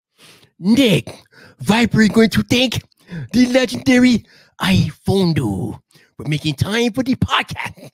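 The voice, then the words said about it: Attempted impression of Viper. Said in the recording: “I'm going to attempt to do an impersonation. So let me see if I can do this impersonation. Probably going to be terribly bad ... Viper, let's see how good I can do this ... That was probably terrible.”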